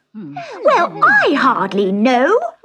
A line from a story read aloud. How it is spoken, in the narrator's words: squeaked